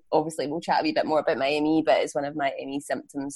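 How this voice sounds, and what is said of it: Slightly croaky, hoarse voice. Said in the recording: “my slightly croaky, but I'm maybe hopefully a wee bit sexy voice ... my voice goes, my throat goes as well ... the croaky voice”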